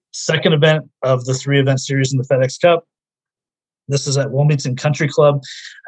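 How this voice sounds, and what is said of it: Strained, fading voice. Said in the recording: “I'm losing my voice for some reason, too much talking.”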